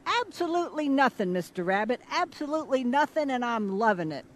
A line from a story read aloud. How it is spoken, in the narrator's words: Crow shouted back